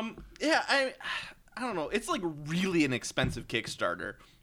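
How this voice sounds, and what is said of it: Usual voice. Nothing is said of it.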